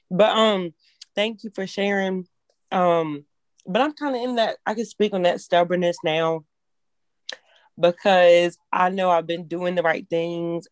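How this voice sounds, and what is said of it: Hoarse voice. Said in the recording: “my voice is still hoarse.”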